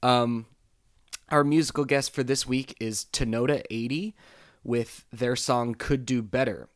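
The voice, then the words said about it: Rough, raspy hoarse voice. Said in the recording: “apologize for my voice because apparently uh, I ate a cheese grater last night”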